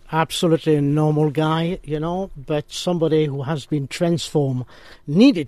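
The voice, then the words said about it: Pleasant non-local accent. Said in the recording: “I love that accent ... It's just gorgeous”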